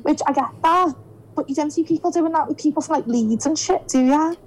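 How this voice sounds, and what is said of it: Liverpool Scouse accent. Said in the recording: “We've got the easiest accent to take... comparing my accent with some American woman... Liverpool! Like the way I said Liverpool on that. Tuesday, the way I said Tuesday... Scouse”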